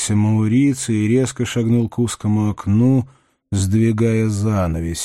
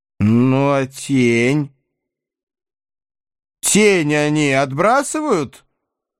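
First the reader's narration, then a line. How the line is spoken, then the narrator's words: Insistent, menacing interruption. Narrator (Russian): Настойчиво и грозно перебил Мауриций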